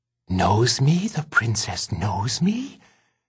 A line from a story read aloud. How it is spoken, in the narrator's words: said the roach in awe